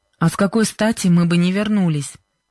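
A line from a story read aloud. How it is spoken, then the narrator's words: Displeased question. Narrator (Russian): недовольным голосом спросил Джо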